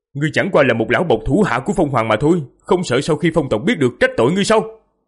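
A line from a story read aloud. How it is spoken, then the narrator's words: Loud demanding shout. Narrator (Vietnamese): Diệp Phàm lớn tiếng quát hỏi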